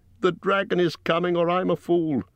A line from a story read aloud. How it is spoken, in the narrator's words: he cried